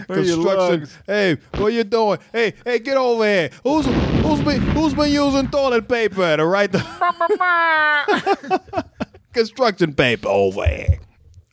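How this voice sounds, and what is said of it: Put-on New York accent. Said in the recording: “New York accent”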